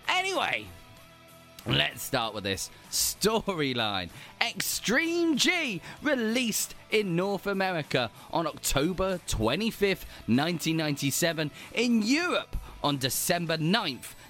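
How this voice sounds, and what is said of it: Southern English Hampshire accent. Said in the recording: “a southern western accent, which isn't quite West Country, not quite East. It's, yeah, Hampshire's a lovely mix of both”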